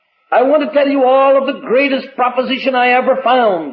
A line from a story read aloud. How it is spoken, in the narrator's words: cried